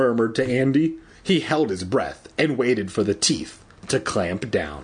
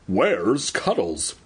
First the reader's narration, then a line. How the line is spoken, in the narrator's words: He stammered